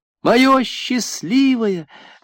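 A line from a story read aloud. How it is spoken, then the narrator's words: Joyful shout. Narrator (Russian): радостно закричала Кама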